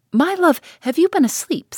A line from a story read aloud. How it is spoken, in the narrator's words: said his wife, laughing